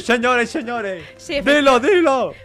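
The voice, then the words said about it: Shouting excitedly. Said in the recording (Spanish): “¡No grites! ¡No grites!”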